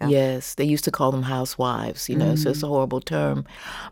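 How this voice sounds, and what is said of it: Smooth Southern American accent. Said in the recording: “we just love your voice... It's like cream being poured on velvet... It's probably an accent from Mississippi and Tennessee, but I was born in the Windy City”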